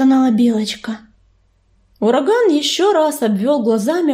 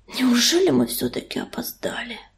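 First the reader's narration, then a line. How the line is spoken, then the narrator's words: Hoarse breathless exhale. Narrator (Russian): Хрипло выдохнул он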